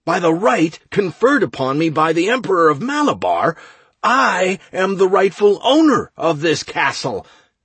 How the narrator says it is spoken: I yelled

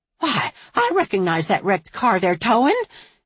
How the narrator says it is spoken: she exclaimed

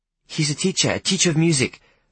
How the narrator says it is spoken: I said urgently, in an attempt to hide my confusion

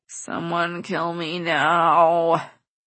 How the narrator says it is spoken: I groan, not wanting to get up

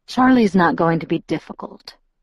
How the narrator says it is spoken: Edward promised, his voice level with no hint of humor

